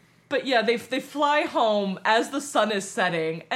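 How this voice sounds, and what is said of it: Usual voice. Nothing is said of it.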